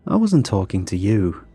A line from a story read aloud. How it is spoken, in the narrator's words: Luke said with a warm laugh